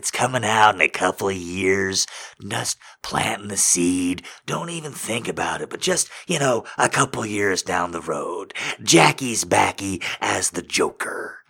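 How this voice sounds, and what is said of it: Jack Nicholson impression. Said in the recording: “I just like doing my Jack Nicholson impression.”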